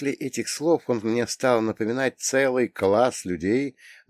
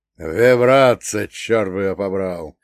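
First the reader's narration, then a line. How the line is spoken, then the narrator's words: Growling. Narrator (Russian): зарычал он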